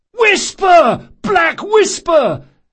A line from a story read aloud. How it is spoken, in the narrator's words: at the top of his lungs